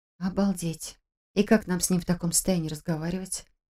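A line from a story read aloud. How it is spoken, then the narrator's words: Grumbling. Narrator (Russian): проворчала Саша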